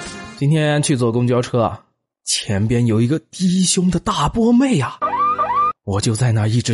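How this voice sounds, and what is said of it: Usual voice. Nothing is said of it.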